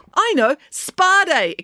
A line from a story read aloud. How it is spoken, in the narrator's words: exclaimed Loretta